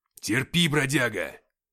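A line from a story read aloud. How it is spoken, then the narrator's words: Growled. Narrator (Russian): прорычал я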